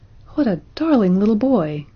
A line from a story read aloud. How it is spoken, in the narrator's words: exclaimed Roxanne, smiling radiantly